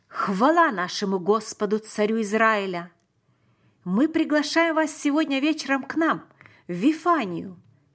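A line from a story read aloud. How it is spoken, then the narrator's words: Loud exclamation. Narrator (Russian): громко воскликнул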